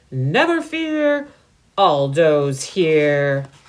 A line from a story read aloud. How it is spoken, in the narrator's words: a familiar voice roared